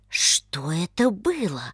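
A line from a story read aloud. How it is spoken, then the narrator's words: Whisper. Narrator (Russian): прошептал Павел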